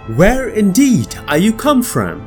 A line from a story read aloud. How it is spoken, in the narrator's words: cried the astonished Shibalbans